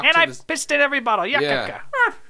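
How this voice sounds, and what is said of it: Poor Popeye impression. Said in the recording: “I gotta work on my Popeye impersonation. That was pretty bad.”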